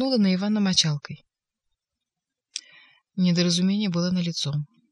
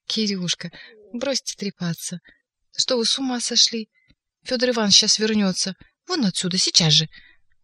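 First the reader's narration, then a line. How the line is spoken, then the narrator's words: Quiet and cheerful. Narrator (Russian): Она сказала тихо и весело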